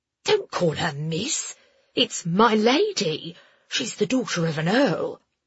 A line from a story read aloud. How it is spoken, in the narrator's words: one of the soldiers hissed at his friend